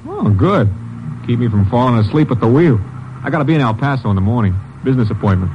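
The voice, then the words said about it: New York accent. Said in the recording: “You from the east? ... New York. Guess the accent sticks out, huh? ... Reckon so.”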